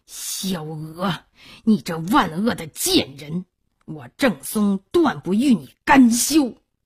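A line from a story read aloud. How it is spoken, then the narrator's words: Through gritted teeth. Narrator (Chinese): 郑孔穆咬牙切齿说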